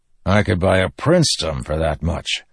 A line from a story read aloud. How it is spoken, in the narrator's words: the quartermaster said with a grunt